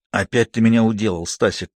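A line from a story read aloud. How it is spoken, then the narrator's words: Hissing with crooked smile. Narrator (Russian): криво улыбаясь, прошипел он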